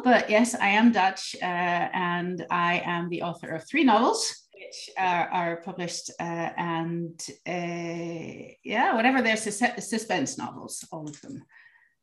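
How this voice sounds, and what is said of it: Dutch speaker, slightly American English accent. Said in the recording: “I'm Dutch, but I learned my English as a child living in multiple countries. So I sound a little American”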